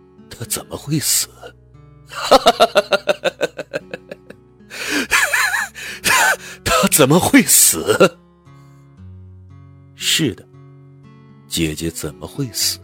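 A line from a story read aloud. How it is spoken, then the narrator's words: Wild laughter. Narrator (Chinese): 上官明亮狂笑道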